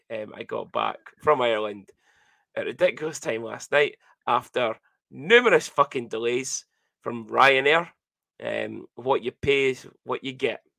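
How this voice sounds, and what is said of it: Hoarse, strained voice. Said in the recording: “as you could hear, I've kind of started losing my voice from reffing this week”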